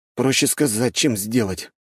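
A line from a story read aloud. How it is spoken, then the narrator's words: Grumbling. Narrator (Russian): проворчал Вальхьем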